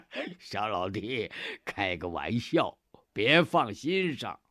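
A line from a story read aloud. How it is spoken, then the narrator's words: Hearty laughing. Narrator (Chinese): 费扬古哈哈一笑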